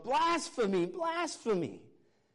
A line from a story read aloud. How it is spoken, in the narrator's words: Caiaphas got so mad, he literally ripped his clothes and yelled